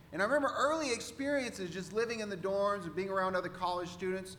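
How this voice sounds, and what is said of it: Central Texan accent. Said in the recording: “Now I'm from Texas, Central Texas ... You're not from around here, are you? ... to a Texan, you know, this is just our accent ... the way I was speaking was conveying to her that I was not from the Northwest”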